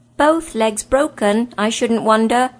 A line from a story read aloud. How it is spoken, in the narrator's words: shouted Puddlegloom